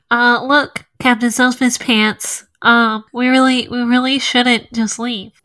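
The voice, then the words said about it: Congested-sounding character voice. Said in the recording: “my best Chickadee impression... that was a really solid Chickadee impression... She just sounds congested, like so congested.”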